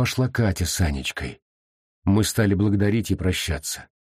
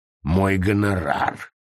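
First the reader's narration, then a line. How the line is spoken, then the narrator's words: Grumbled. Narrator (Russian): буркнул он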